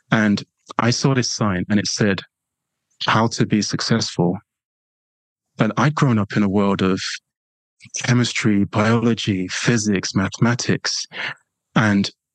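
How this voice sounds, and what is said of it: English accent. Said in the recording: “London, England. You probably, you know, won't be surprised by that from my accent”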